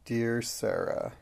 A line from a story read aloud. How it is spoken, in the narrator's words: murmured Lavinia